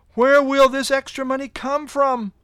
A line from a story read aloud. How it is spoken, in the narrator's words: I called out to God in prayer